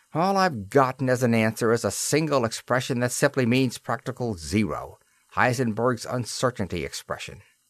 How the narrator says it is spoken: he added bitterly

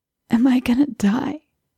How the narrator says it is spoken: rasped, blood frothing in the corner of his lip

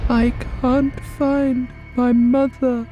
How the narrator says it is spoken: she whimpered

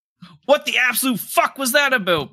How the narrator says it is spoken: Bart yelled

